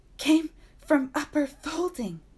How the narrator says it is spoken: panted this dog man

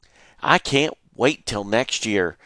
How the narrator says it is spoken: Jerry said

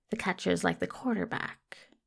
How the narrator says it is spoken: mutters to himself

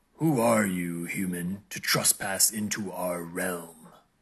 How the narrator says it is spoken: the creature growled, its voice a low rumble that shook the very ground

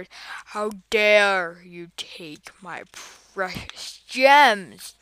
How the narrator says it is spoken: the giant roared

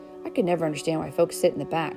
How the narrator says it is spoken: grumbled Billy

